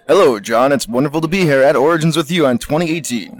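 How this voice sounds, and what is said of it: Put-on radio announcer voice. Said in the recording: “doing his radio voice ... my radio voice because it hurts my throat”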